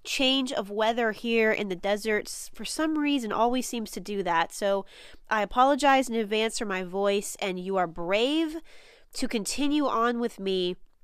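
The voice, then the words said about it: Nasal, congested voice. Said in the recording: “I sound a little nasally to you, it's because I am a little nasally. I've been dealing with a bit of a head cold”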